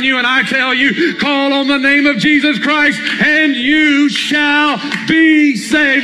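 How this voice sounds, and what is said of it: Yelling preacher. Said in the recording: “why are you yelling?”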